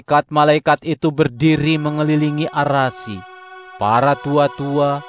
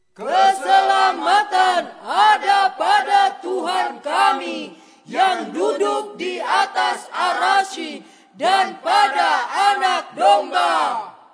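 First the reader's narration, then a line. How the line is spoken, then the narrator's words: Loud collective exclamation. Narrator (Indonesian): mereka berseru dengan suara nyaring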